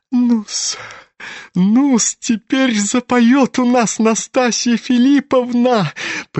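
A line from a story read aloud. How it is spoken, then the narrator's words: Giggling. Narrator (Russian): хихикал чиновник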